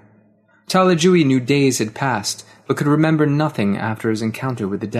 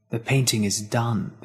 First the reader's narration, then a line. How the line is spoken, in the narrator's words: the devil whispered